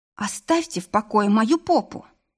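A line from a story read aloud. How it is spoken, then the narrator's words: Pleading. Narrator (Russian): взмолилась я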